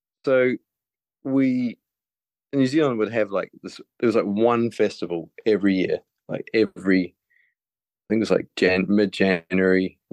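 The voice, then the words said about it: Smooth New Zealand accent. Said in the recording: “I grew up in New Zealand, as you can probably tell by my very smooth accent.”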